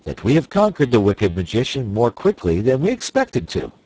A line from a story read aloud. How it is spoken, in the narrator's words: said the wizard in a cheerful voice